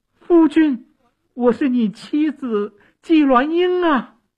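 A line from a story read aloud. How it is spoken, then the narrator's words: Loud calling. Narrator (Chinese): 纪鸾英大声地叫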